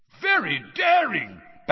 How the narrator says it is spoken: Bagman was yelling

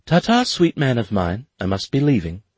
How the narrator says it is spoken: in her most innocent voice she said

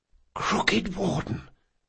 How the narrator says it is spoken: Locke whispered

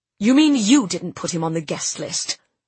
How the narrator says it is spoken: Jasper snapped

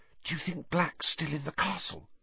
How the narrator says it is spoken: Hermione whispered anxiously

